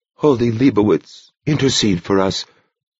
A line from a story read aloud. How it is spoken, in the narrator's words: Brother Francis breathed with the others